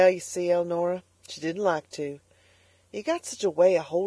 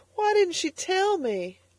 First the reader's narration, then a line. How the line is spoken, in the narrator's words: sobbed the girl